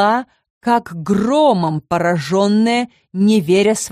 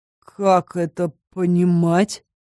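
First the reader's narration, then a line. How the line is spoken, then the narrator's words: Confused remark. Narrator (Russian): растерянно произнес Кайл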